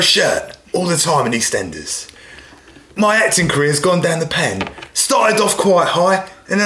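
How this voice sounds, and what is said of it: Usual voice. Nothing is said of it.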